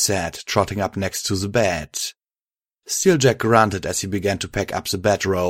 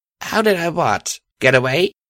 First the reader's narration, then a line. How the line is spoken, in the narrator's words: the mare said, smiling brightly